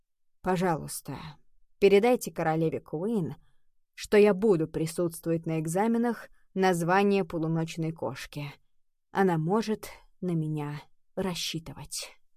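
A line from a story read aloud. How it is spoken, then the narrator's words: Sighing. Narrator (Russian): Ее учитель вздохнул и сказал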